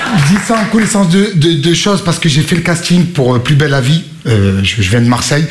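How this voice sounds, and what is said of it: Marseille French accent. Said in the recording (French): “j'avais l'accent marseillais”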